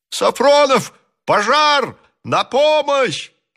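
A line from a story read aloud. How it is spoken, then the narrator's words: Shouting. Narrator (Russian): кричал Иван Ефимович, перебегая с места на место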